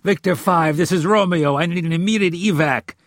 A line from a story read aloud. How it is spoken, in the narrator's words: he yelled into his lip mic